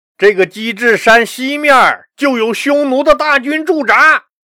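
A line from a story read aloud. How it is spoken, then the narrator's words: Excited, loud. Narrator (Chinese): 任洪激动坏了，大声告诉田广明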